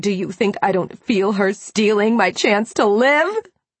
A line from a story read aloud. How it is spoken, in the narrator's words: She screamed out in rage